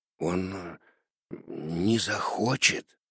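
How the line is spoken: Uncertain whisper. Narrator (Russian): неуверенно шепнул Карло

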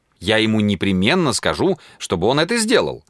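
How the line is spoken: Exclaiming. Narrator (Russian): воскликнула Люд

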